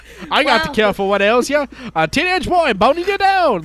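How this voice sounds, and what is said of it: Old-timey snake oil salesman voice. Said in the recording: “It was the accent ... did... She did it like a 1920s snake oil salesman.”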